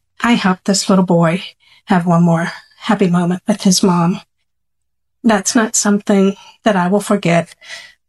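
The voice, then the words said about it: Emotional, saddened voice. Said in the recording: “you can probably hear in my voice, this was not an end of a happy day.”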